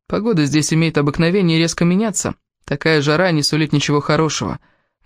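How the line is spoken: Gloomy. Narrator (Russian): мрачно сказал Кевин

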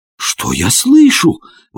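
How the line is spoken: Astonished exclamation. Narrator (Russian): воскликнул я пораженный

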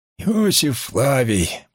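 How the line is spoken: Wheezing rasp. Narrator (Russian): просипел он

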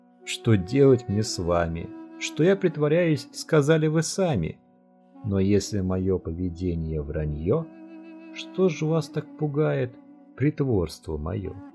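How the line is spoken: Laughing. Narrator (Russian): Зуэннун рассмеялся

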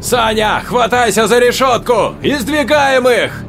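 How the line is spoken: Yelling, nearly screaming. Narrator (Russian): Орал, почти вопил Игнат

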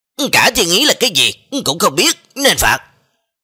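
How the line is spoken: Angry shout. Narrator (Vietnamese): Cái Trường Phù lập tức giận dữ quát

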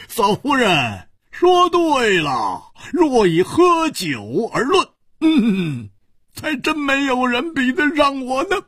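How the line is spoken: Hearty laughter. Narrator (Chinese): 胡铁花哈哈大笑说

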